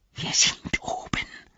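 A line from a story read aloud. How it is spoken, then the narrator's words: Whispered. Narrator (German): flüsterte er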